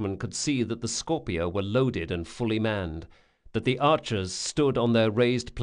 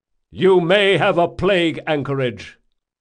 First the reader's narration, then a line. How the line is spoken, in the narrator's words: shouted the Komori officer